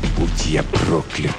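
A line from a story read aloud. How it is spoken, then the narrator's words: Whisper. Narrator (Russian): прошептал Нолан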